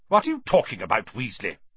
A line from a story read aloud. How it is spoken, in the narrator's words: barked Professor McGonagall